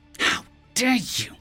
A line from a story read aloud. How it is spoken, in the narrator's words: I hissed with outrage